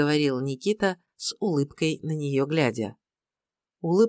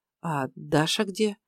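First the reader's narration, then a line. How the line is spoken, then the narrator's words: Timid question. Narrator (Russian): спросила робко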